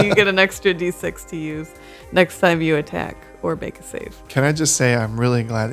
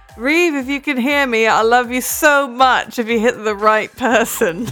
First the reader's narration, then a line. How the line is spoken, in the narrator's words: I'm going to yell to Reeve